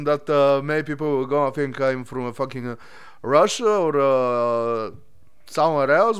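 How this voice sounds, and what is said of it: Bulgarian accent with hard R. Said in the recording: “I have some weird accent ... I'm from fucking Bulgaria, and yes, we talk like this. Our R is a hard one.”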